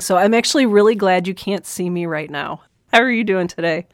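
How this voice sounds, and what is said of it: Sick voice with cold, sore throat. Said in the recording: “I don't know if you can tell from my voice or if listeners can tell from my voice, but I am fighting this wonderful cold, sore throat, amazing combo type thing.”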